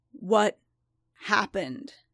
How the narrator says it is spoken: Din growled

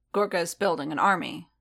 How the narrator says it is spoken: Din asked, his tone sharpening

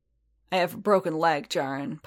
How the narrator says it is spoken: Paz growled

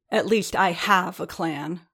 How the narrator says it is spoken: Riordan spat

